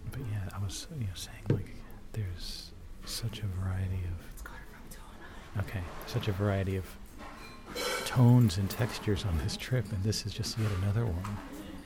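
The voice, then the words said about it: Quiet whispered speech. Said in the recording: “Am I being loud? Can you hear me? ... No, you're low enough. ... This is whispering as well. Why are we whispering?”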